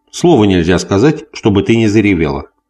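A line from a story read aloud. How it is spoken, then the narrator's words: Conciliatory tone. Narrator (Russian): сказал примиряющим тоном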